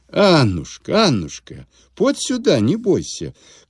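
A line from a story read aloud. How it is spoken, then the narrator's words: Old man calling tenderly. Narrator (Russian): кликнул старик ласково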